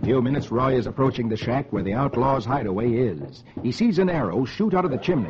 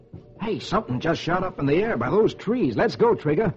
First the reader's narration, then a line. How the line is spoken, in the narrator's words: He exclaims